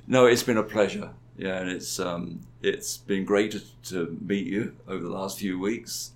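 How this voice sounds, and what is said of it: British-sounding mid-Atlantic accent. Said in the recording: “having a British person in my life again ... With a funny accent ... I'm mid-Atlantic”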